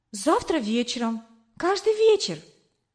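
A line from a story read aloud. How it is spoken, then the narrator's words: Excited, agitated. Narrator (Russian): взволнованно ответила я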